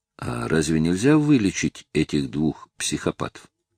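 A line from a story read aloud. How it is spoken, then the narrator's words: Quiet question. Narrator (Russian): Я тихонько спросил Госса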